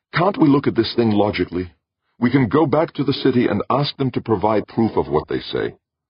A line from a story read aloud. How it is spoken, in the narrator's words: he pleaded